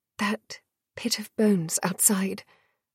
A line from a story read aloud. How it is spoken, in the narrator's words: whispered